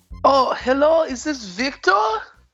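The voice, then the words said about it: Put-on vampire-style foreign accent. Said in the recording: “forgive my accent ... your accent makes you say people's names wrong”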